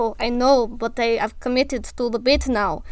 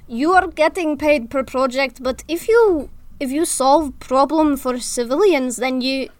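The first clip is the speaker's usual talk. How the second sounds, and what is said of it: Put-on Russian accent drifting Scottish. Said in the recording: “I'm going into Scottish. ... I can't do this accent without going into Scottish. ... Russian.”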